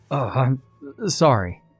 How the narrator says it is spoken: stuttered the man

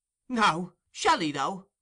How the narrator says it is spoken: cried Charlie Bates

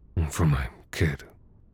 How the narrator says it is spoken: he muttered

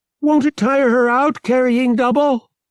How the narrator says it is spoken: she shouted back at Han

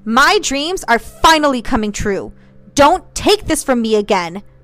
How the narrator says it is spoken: shouted

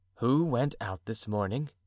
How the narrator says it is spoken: Athos asked uneasily

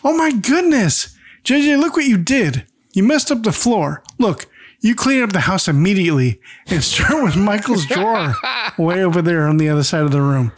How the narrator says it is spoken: Thelma shrieks

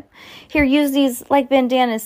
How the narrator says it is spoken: Sam yelled

